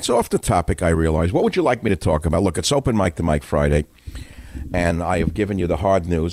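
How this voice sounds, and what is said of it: New York accent. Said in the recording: “the New York accent, which I, of course, exemplify”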